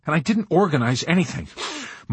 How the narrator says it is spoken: Milo answered indignantly, drawing great agitated sniffs of air in through his hissing, pale, twitching nose

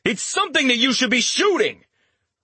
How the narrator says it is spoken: Richter shouted back

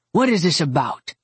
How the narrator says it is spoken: Nick growled

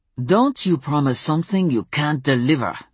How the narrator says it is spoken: he snarled

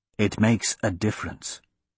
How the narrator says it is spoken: the executioner whispered in his ear

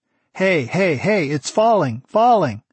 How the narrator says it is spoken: Shin shouted the warning

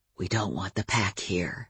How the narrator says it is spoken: Adam said very quietly to me

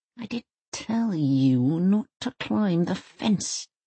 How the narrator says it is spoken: she mutters

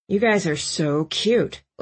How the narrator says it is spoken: Landon moaned

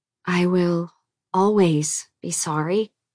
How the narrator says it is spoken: Daisy said slowly

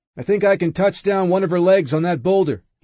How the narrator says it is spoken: he yells

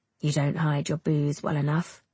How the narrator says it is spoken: he mutters

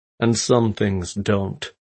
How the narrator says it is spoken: he said coolly

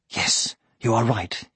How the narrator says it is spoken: he murmured

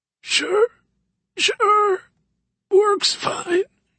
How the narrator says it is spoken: he rasped, clearly stunned by her reaction

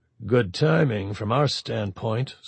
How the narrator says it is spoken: Stovall put in dryly

